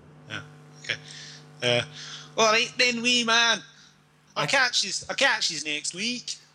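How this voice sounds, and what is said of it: Put-on Glasgow accent. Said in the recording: “I'll go out in a Glasgow accent.”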